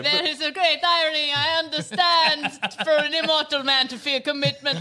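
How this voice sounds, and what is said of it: Bad Dracula accent drifting Italian. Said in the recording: “I really cannot do that accent ... Any bad Dracula becomes Italian eventually”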